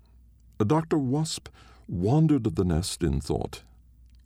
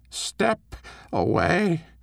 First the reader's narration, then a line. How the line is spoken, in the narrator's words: the Queen croaked